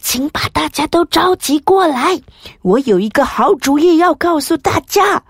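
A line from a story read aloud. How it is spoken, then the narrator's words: Very quietly. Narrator (Chinese): 很小声的跟他说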